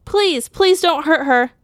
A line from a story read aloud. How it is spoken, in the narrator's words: Clara screamed